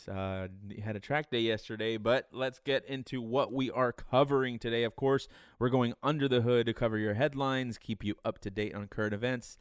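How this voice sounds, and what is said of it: Tired, hoarse, fading voice. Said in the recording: “I am very tired. ... Very tired. ... I'm kind of losing my voice.”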